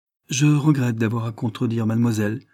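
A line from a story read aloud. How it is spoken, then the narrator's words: Calm woman's reply. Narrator (French): répliqua d'un ton calme la femme de l'aubergiste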